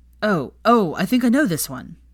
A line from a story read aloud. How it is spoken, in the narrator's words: Blaise exclaimed